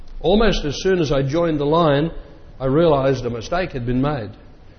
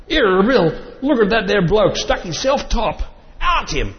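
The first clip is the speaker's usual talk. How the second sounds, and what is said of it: Put-on Cockney accent, shouted angrily. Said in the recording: “My best Cockney accent.”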